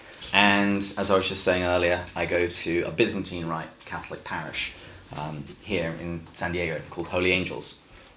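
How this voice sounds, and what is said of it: English accent. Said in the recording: “This accent is English.”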